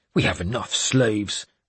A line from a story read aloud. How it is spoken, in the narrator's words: he grumbled